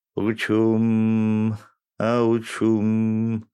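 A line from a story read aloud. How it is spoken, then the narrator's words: Drawl from behind. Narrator (Russian): протянул кто-то из-за спины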